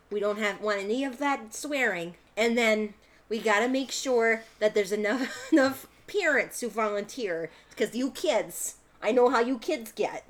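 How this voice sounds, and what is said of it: Inoffensive mom-sounding character voice. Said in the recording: “I gave her that accent. It's just such an inoffensive mom sounding voice”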